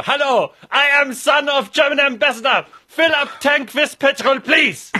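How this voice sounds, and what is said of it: Put-on German accent. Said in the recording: “you must put on a German accent.”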